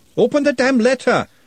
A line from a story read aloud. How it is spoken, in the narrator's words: shouted Glenda